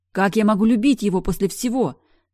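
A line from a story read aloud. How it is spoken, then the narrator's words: Crying out. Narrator (Russian): вскрикнула я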